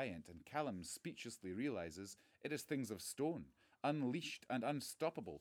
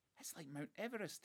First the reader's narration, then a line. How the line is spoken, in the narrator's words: he gasps